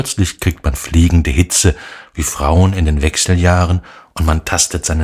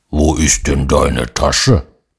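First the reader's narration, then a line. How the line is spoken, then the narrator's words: Gruff growling. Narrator (German): im übertragenen Sinne natürlich ein Braunbär der brummt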